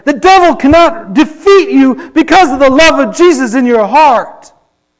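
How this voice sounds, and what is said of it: Excited yelling. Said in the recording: “I'm sorry for yelling. I'm getting excited.”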